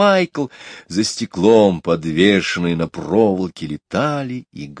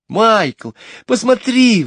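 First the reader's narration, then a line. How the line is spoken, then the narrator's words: Exclaiming. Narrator (Russian): воскликнула Джейн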